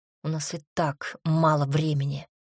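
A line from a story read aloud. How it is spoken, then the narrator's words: Through gritted teeth. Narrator (Russian): сквозь зубы добавил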